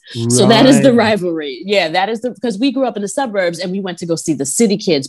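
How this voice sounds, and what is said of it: New York accent. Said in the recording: “as you can hear in my New York accent, I sound like I'm from New York”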